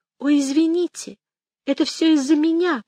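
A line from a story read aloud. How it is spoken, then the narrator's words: Squeak. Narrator (Russian): пропищала она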